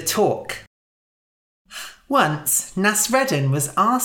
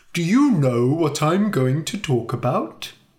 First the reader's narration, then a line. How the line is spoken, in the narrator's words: asked